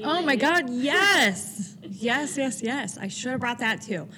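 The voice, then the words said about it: Louder, excited voice. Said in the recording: “Notice how my voice got a lot louder. I was like, oh, I'm passionate about this one.”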